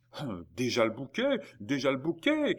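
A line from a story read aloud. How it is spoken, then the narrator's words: Distant crowd shouting. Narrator (French): criaient les spectateurs les plus éloignés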